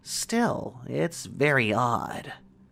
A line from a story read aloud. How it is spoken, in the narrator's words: she murmured